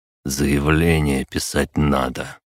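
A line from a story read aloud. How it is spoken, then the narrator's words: Muffled dull voice. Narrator (Russian): глухо сказал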